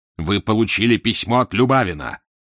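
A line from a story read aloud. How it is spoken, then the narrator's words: Terrifying growl. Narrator (Russian): прорычал Фандорин страшным голосом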